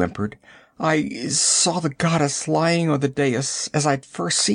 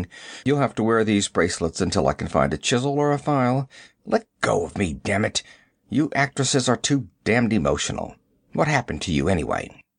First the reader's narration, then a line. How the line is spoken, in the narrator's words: grunting